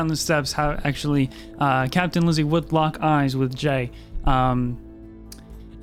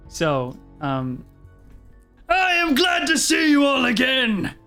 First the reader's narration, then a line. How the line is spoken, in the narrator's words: Marshal John yells out